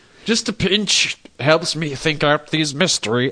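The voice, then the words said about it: Put-on Sherlock Holmes accent. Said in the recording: “I don't know what fucking accent John Holmes has.”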